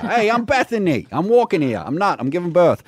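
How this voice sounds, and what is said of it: Put-on New York accent. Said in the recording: “What's that accent? ... New York”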